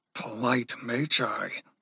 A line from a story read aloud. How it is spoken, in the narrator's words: Blit murmured